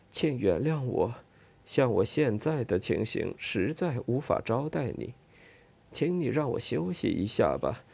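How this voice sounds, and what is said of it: Weak, feeble voice. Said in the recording (Chinese): “用一种微弱的声音说道”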